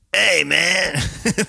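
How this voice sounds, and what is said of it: Imitates cartoon bus driver Otto. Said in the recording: “you're good at his impression ... Otto ... the bus driver”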